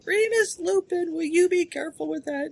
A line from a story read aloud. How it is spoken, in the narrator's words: screaming